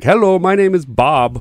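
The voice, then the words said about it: Put-on Indian call-center accent. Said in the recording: “Oh, he did the accent. ... he's committing to the bit”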